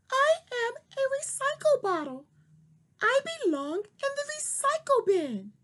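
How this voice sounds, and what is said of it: Squeaky talking-bottle voice. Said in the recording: “squeaky voice”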